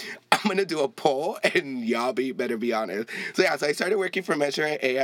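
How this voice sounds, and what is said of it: Usual voice. Nothing is said of it.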